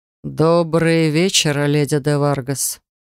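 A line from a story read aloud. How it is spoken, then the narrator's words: Mocking drawl, male. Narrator (Russian): с издевкой протянул мужчина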